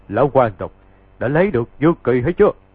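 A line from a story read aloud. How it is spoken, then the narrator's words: Laughing loudly. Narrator (Vietnamese): có kẻ cười to, nói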